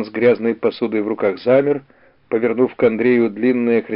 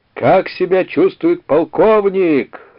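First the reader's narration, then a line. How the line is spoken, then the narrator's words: Yelling. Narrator (Russian): заорал Андрей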